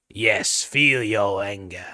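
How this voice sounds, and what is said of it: Darth Sidious impression. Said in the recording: “I do a terrible Darth Sidious impression”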